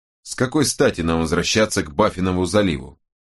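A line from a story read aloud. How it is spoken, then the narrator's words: Plain. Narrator (Russian): спросил Франклин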